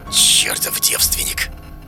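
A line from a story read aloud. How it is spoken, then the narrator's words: Malicious whisper. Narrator (Russian): Послышался злобный шепоток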